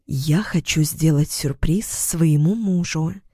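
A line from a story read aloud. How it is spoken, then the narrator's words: Intimate whisper. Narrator (Russian): понизила голос до интимного шепота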